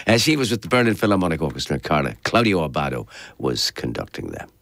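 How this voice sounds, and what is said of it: Voice lower in register than usual. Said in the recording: “a bit lower in the register, like my voice is this morning”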